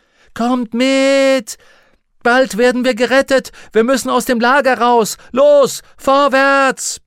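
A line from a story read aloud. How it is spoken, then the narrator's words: Bellowing. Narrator (German): brüllte Lyra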